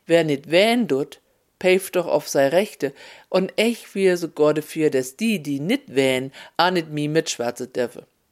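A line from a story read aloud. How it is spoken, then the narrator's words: Customer calling out. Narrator (German): rief die Kundin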